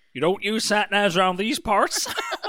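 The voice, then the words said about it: Imitated local accent. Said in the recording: “Beautiful accent.”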